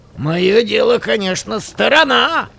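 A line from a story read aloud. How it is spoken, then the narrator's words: Shout from a distance. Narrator (Russian): крикнул он, отбежав на почтительное расстояние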